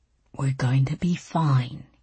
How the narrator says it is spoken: he said, his voice low and rumbling and soothing

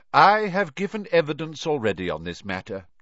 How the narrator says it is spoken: said calmly

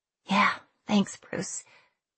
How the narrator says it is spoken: I said under my breath

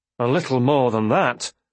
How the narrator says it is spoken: Leftrin said tightly

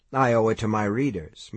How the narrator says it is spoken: Mike said blandly

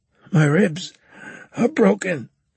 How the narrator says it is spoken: Carlos said, wheezing

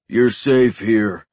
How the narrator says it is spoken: the giant said, his voice deep

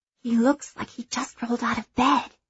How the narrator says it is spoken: she whispers

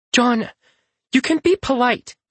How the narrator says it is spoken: Luthien snaps

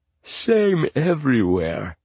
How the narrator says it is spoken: he said, yawning

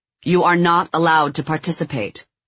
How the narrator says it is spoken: Couture said again, raising his voice

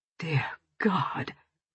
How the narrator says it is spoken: Tom whispered hoarsely

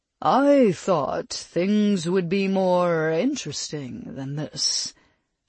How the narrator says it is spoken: Thadric said in that cool, sophisticated tone

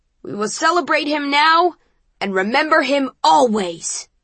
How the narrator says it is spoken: yells Eric

